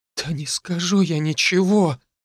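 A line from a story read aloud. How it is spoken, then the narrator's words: Weak moan. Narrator (Russian): бледная как смерть простонала Лера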